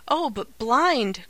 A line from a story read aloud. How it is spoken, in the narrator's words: cried the young voice, with a shudder